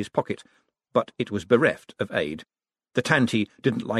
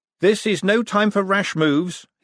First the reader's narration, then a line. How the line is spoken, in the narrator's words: he said loudly